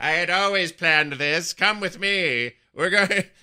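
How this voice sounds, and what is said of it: Sylvanas impression sounding like Skeletor. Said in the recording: “talking like Skeletor from the 80s yeah. He-Man cartoon ... my Sylvanas impression”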